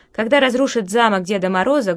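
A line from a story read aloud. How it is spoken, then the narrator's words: Boy's menacing warning. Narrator (Russian): грозно предупреждал мальчик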